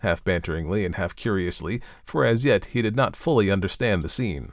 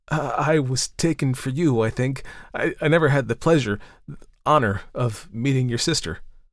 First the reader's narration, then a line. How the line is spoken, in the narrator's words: He was painfully embarrassed, but managed to stammer